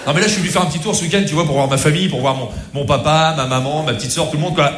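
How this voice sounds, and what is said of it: Put-on Rouen regional accent. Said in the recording (French): “l'accent de Rouen”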